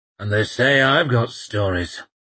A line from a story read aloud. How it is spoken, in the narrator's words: grumbled